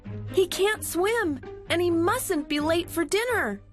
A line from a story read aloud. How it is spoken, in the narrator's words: cried Millie and Molly